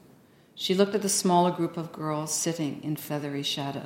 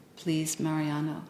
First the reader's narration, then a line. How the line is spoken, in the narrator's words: she said softly